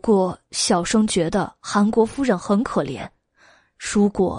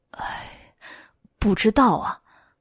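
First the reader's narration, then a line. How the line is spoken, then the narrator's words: Sighing. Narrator (Chinese): 袁耀叹了一口气道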